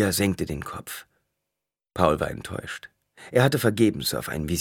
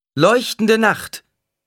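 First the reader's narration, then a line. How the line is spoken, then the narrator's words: Calling out. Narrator (German): rief sie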